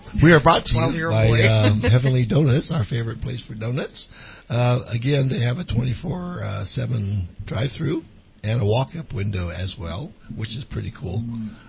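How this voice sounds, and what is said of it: Hoarse, partly lost voice. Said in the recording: “Half of my voice is here, and the other half is I don't know where.”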